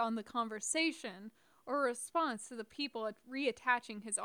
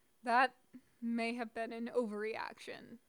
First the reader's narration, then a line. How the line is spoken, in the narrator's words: he muttered